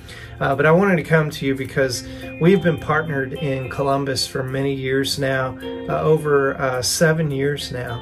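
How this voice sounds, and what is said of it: Southern American accent. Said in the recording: “my southern accent... I can put subtitles on this video so that you can understand me”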